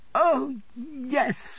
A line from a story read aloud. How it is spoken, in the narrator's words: cried Dora